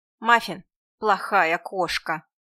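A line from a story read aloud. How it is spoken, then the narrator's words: Grumbling. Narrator (Russian): ворчание Эдит, нашей соседки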